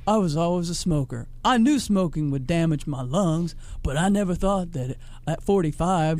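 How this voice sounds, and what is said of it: Imitates another person's voice. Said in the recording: “I was imitating him. It's dead on, by the way.”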